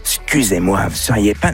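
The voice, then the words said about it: Imitates the TV detective Columbo. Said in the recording (French): “Columbo ... petite imitation, c'est pour vous, c'est cadeau”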